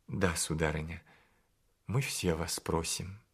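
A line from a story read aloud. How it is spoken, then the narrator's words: Timid request. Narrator (Russian): он робко попросил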